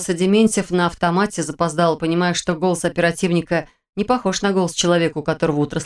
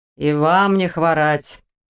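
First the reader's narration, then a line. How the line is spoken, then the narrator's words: Grumbling reply. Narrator (Russian): предсказуемо проворчал в ответ полицейский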